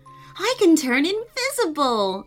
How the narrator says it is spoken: Amelia laughed

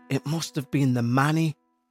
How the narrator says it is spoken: Cindy muttered under her breath

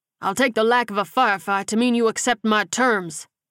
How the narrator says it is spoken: he bellowed

